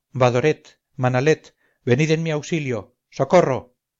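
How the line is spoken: Anguished defenseless exclamation. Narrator (Spanish): Hallándome sin defensa, exclamé con angustia

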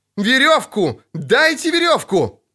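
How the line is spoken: Desperate shouting. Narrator (Russian): кричал Лютик

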